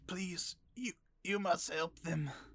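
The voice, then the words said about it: Bad goblin character voice. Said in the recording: “That's the worst goblin voice.”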